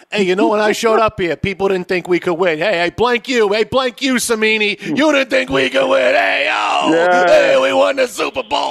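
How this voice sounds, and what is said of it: Put-on New York/Jersey accent. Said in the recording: “his Hall of Fame speech will be with a New York accent ... it should be something of a Jersey accent. It should be like Jersey Shore”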